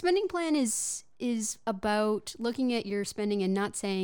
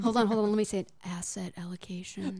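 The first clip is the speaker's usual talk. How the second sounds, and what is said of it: Sultry, seductive voice. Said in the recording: “in your sexy voice”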